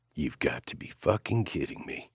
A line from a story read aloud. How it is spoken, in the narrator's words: Nash muttered